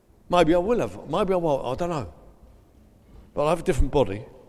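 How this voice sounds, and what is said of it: South East London accent. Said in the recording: “my South East London accent”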